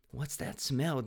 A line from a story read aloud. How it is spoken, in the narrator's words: Dylan whispered